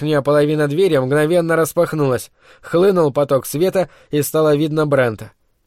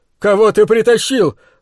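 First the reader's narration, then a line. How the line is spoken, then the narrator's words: Angry shout. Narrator (Russian): злобно выкрикнул Брент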